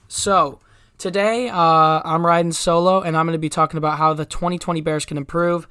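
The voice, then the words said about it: Stuffy, congested voice. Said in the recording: “I am a little bit stuffy. ... I've got a little bit of a cold, so I'm sorry if I sound congested.”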